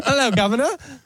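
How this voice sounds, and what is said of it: Put-on British accent. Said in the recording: “That's when you break out the British accent.”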